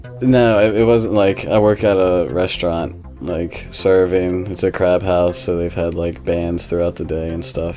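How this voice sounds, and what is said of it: Groggy, worn-out voice. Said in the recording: “my voice voice is like super groggy right now ... I probably sound dead ... my voice is a little messed up”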